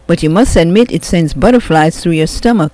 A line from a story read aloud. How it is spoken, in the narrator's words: Anna said